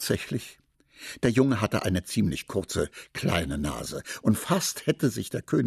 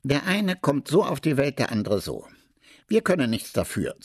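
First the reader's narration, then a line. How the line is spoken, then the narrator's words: Plain. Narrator (German): sagte er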